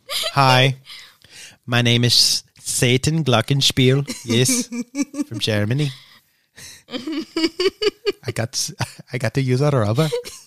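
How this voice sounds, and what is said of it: Poor fake German accent. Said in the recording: “That's me trying to do a German accent... It's so not German, but sure, we'll go with it.”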